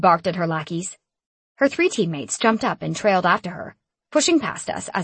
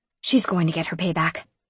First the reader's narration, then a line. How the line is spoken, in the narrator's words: I whispered to him